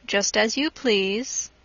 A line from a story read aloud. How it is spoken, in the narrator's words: without raising his head, coolly replied